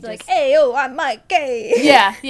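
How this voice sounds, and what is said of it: Exaggerated put-on New York accent. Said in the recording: “he was really trying the New York accent, really hardcore ... Yeah, totally like that. Like a Ninja Turtle.”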